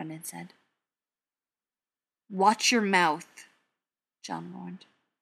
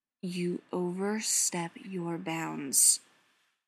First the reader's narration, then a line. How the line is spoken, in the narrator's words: John said slowly, forcing himself to keep his voice even as he spoke